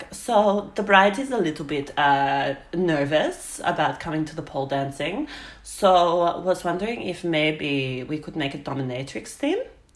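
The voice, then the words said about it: Bad put-on Russian or European accent. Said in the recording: “I think she was Russian or European of some sort ... this is going to be the worst accent ever”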